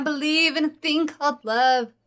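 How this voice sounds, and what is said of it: Character voice, romantic bard. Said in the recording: “my impression of a bleeding heart dragon ... A bleeding heart bardic dragon PC.”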